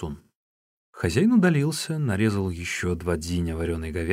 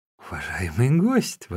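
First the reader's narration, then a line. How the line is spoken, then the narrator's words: Exclamation. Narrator (Russian): воскликнул хозяин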